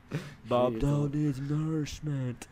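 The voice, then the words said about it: Imitates another person's voice. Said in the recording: “That's a good impression, man.”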